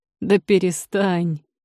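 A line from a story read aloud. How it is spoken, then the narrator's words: Laughing. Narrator (Russian): рассмеялся Рейгар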